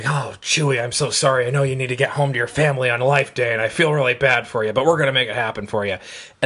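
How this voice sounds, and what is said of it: Harrison Ford impression as Han Solo. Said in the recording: “That is a good Harrison Ford impression.”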